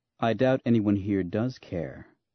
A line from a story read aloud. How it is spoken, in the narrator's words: said coolly